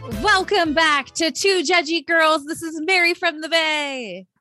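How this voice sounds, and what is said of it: Sports announcer style voice. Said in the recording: “Super Bowl announcer voice”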